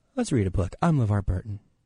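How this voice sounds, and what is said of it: Impression of LeVar Burton. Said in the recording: “Give me another person I can do an impression of real quick... LeVar Burton”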